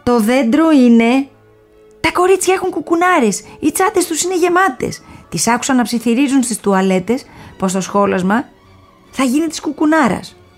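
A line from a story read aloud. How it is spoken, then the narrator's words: Shouting. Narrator (Greek): φωνάζει ο Εμμανουήλ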